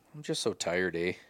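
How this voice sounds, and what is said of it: Put-on Canadian accent. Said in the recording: “sounded Canadian there for a minute”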